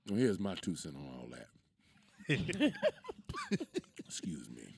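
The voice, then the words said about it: Put-on sexy, seductive voice. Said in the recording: “putting on that sexy voice? Who you trying to serenade?”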